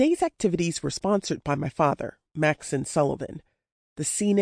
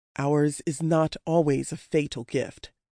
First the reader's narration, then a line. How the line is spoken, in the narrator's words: Mac had said